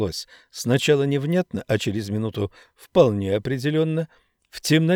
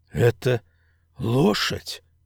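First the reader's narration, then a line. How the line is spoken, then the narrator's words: Forced out, strained. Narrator (Russian): выдавил из себя Ричард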